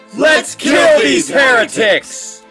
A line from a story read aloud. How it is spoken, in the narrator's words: shouted